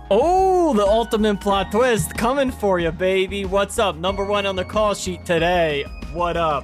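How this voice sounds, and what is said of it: Put-on accent. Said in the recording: “What's this fucking accent?”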